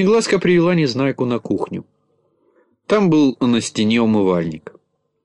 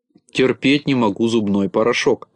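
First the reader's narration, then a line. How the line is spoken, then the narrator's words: Grumbling. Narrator (Russian): проворчал Незнайка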